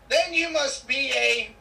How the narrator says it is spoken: yells out

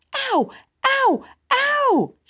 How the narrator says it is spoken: shrieked Susan

